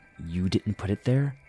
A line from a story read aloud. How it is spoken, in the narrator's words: asked quietly